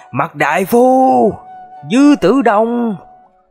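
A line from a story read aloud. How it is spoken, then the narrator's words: Angry, bitter hatred. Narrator (Vietnamese): với điệu bộ giận dữ và thống hận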